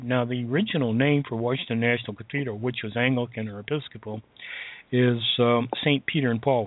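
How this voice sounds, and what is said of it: Hoarse, fading voice from a cold. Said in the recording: “I'm losing my voice again. Sorry, folks. ... this cold”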